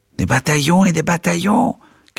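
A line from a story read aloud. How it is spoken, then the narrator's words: Furious old man shouting. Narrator (French): criait hors de lui le petit vieillard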